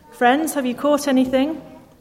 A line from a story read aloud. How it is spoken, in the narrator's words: He called out to them